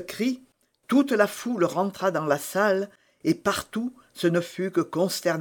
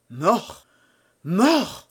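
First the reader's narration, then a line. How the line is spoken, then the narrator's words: Exclaimed. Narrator (French): s'écria Patrick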